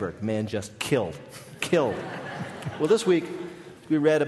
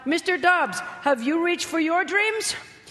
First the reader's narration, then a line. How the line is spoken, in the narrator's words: the pudgy young hand of 9-year-old Jesse Gonzalez shot up and called out